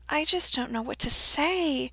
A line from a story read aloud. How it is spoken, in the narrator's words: he mumbled